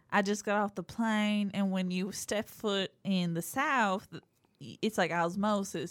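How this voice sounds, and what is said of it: Put-on Southern American accent. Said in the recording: “in a Brian Kelly accent ... That was a pretty good southern accent that you did. I thought it was more convincing.”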